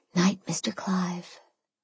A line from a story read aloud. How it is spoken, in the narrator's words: I whispered